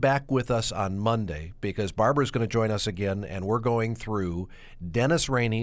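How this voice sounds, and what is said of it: Usual voice. Nothing is said of it.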